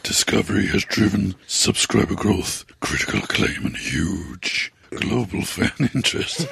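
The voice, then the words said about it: Exaggerated sexy, seductive voice. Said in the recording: “Is that your sex god voice? ... That's a very good sexy voice.”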